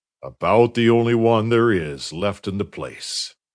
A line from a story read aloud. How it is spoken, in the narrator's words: observed Allardyce gloomily